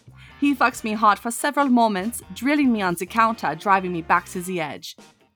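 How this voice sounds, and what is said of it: Reads in a put-on accent. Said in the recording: “Especially with that accent,”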